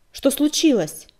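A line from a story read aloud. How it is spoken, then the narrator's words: Sharp question. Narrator (Russian): резко спросила оцелотка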